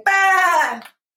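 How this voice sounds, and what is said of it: Bad imitation of a lamb bleating. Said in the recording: “that was a very bad impression of a lamp”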